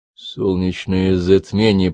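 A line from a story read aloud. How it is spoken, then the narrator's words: Muttered. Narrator (Russian): пробормотал Чарли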